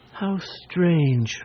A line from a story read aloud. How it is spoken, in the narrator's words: murmured Cecily, much impressed